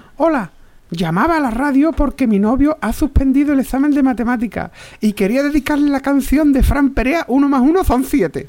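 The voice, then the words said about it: Put-on girl's voice. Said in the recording (Spanish): “poner voz de chica”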